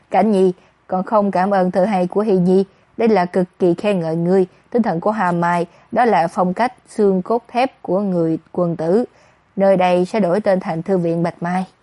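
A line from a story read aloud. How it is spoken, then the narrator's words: Old man, laughing loudly. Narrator (Vietnamese): Lão hoàng đế cười lớn, nói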